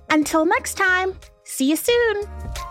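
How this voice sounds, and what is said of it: Cartoon voice. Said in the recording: “in your best cartoon voice”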